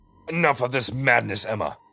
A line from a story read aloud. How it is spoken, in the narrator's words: he roared